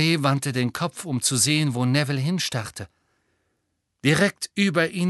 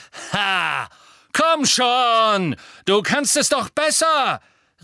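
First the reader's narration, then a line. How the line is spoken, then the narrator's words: Echoing shout. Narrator (German): rief er, und seine Stimme hallte in dem Gewölberaum wieder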